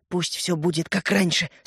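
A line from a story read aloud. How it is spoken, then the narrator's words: Rapid whisper. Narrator (Russian): скороговоркой прошептал он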